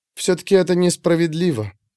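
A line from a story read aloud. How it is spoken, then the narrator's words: Quiet, breaking off. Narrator (Russian): тихо сказала девушка и осеклась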